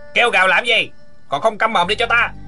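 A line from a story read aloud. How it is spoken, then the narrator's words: Guard's harsh shout. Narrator (Vietnamese): Một tên ngục tốt hét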